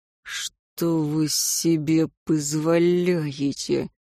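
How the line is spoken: Hiss. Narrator (Russian): прошипел

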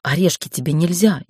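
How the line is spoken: Frightened. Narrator (Russian): испуганно сказала Ольга

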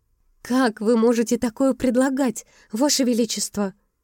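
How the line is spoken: Angry exclamation. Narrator (Russian): Гневно воскликнула Изая

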